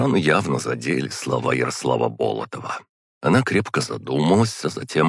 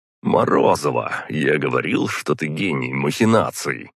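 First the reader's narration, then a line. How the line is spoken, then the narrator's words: Short laugh. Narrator (Russian): хохотнул Болотов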